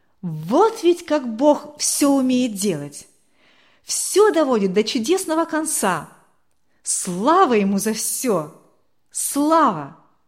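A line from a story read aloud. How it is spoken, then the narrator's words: Loud joyful exclamation. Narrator (Russian): Валерий с улыбкой громко воскликнул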